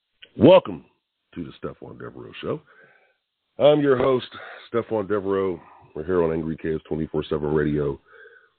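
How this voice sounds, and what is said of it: Tired, worn-out hoarse voice. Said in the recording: “I still got a little voice left... with the voice that I have. It's really tiring. It's tired. My voice is tired. Did a lot of yelling and screaming last night.”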